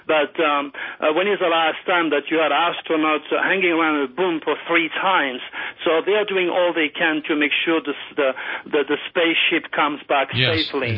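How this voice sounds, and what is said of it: Distinctive French accent. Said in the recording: “Pretty distinctive French accent”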